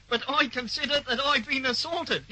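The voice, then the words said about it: Silly comic character voice. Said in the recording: “talking in that idiotic voice ... you spoke in that ridiculous voice”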